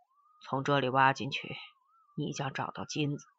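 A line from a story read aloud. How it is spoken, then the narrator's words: Cold. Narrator (Chinese): 冷冷的对陈诚说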